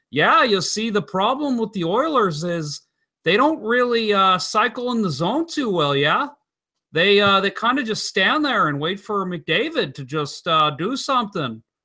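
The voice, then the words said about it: Imitated Canadian accent, North Dakota-like. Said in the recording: “Was that a good impersonation? ... That's pretty good. ... I'll give that a B minus. ... It was kind of a cross between Canadian and like North Dakota.”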